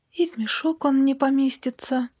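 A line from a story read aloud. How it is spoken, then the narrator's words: Sad girl sighing. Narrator (Russian): грустно вздохнула девочка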